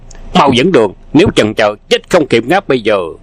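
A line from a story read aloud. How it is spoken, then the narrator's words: Thunderous bark. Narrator (Vietnamese): Hoàng Dược Sư nạt như sấm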